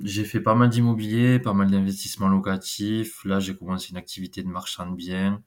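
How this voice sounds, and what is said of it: Slight southwestern French accent. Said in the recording (French): “je suis du Gers, du Sud-Ouest, ça doit s'entendre un petit peu ... un tout petit peu, les gens vont vite le reconnaître”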